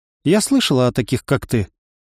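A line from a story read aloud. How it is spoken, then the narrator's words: Calm reply. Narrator (Russian): спокойно ответила Равена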